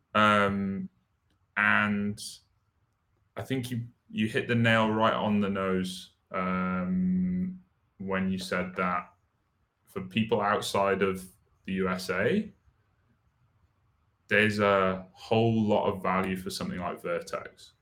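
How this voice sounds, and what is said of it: Non-American accent. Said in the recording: “you can probably tell from my accent, I'm not from the sunny United States”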